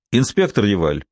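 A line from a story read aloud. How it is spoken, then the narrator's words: Raised, official tone. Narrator (Russian): повысив голос, официальным тоном заговорил Дюпен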